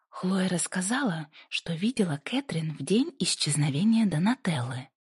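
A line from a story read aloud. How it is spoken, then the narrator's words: Plain. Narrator (Russian): ответила Пасифика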